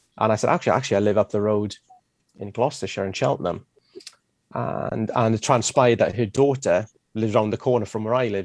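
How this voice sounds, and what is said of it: Non-English accent. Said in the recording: “with this accent, it's not exactly English”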